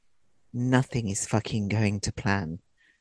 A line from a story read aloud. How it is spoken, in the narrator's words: Taylor said in her usual calm tones